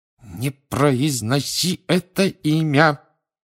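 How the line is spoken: Hissed through teeth. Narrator (Russian): прошипел Рон сквозь зубы

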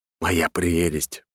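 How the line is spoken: Whisper. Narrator (Russian): прошептал

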